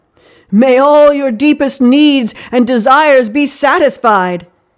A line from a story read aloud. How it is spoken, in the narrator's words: he called out